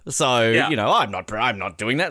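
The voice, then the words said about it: Imitates Superman's voice. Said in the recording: “my Superman impersonation.”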